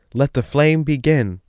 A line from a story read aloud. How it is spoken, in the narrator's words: the king snatched the speaking trumpet from the baron and shouted